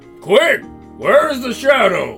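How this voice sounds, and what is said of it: Old man character voice. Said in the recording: “do that voice. I was wanting to do the old man's voice.”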